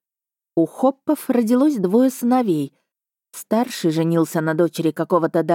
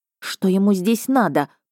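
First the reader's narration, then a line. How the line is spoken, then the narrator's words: Hiss. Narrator (Russian): прошипела я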